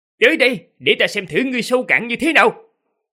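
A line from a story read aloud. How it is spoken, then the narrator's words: Young man's thunderous shout. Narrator (Vietnamese): Người thanh niên kia, lôi âm đã chấn động, quát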